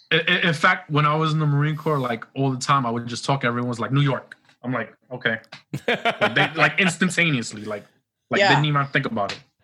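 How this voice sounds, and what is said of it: New York accent. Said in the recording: “I love your accent. I love a New York accent.”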